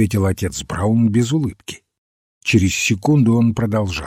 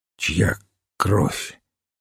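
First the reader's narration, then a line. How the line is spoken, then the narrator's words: Hoarse question. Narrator (Russian): Генри Сент хрипло спросил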